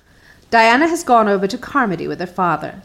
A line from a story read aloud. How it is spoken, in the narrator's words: said Mrs